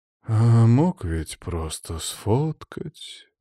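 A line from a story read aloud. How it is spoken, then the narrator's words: Musing, lazy sigh. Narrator (Russian): призадумался Тихонов, лениво вздохнув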